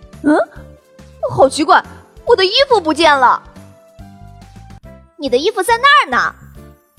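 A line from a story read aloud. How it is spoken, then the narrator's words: Shouting from next room. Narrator (Chinese): 哥哥在隔壁卧室大喊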